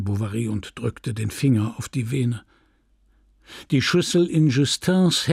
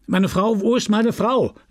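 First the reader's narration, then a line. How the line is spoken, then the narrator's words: Shouted. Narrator (German): rief Charles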